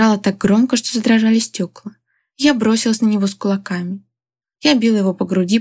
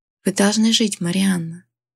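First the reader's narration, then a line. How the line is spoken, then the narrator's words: Said quietly. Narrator (Russian): тихо сказал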